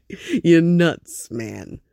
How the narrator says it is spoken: Vinny laughed a little desperately and said

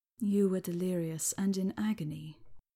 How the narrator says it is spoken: he said gently

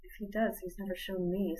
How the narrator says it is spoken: sighed Gwen

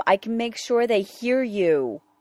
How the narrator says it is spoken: Rodney yelled, words tumbling from between his lips before he knew what he was saying

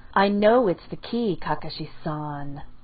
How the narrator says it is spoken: said flatly

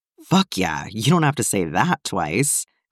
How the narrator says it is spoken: Clint chuckled

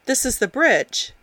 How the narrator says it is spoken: Jim told the boy, smiling brightly

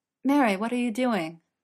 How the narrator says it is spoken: Frodo cried

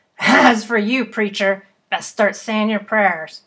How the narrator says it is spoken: he said with a harsh laugh

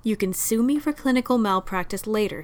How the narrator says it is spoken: he said

